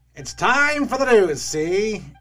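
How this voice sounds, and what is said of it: Old-time radio announcer voice. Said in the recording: “you do that voice so well, but it's not your voice ... the old-time radio voice”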